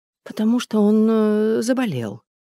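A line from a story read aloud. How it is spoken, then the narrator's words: Confused. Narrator (Russian): растерянно ответила Наташа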